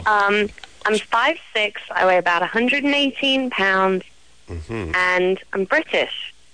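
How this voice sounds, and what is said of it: British accent. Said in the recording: “she's British... let's hear the accent... I like the accent.”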